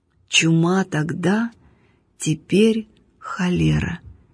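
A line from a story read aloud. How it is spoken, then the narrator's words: Slow reminiscing hermit. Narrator (Russian): медленно проговорил пустынник, как будто припоминая про себя что-то давно-давно минувшее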